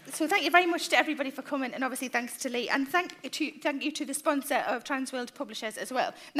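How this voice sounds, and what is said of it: North East English South Shields accent. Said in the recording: “You sound just like my mother. ... She comes from South Shields. Is that where you come from?”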